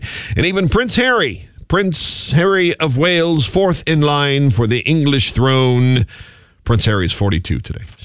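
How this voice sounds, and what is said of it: Light put-on British accent. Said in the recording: “I didn't go too heavy with my British accent.”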